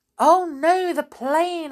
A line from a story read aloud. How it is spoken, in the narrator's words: I exclaimed